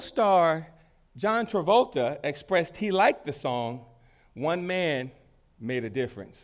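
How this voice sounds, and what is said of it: Usual voice. Nothing is said of it.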